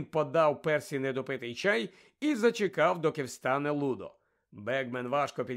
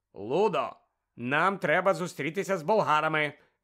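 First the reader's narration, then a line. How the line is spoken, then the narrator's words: Sharp interruption. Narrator (Ukrainian): різко урвав Бегмена містер Кравч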